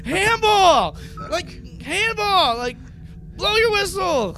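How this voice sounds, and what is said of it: Yelling, shouted reenactment. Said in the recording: “I'm yelling,”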